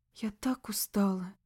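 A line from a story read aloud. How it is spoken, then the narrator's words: Whispered. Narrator (Russian): прошептала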